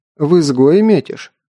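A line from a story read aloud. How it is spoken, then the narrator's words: Plain. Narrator (Russian): спросил мастер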